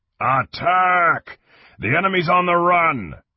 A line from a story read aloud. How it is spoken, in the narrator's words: Kang waved the banner as he yelled